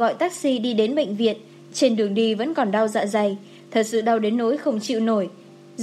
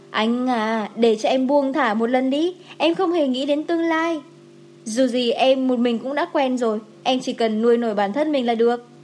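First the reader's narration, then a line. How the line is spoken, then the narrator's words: Smiling. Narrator (Vietnamese): Dài Kỳ mỉm cười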